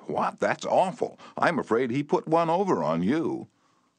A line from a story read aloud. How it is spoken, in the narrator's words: she exclaimed with a note of triumph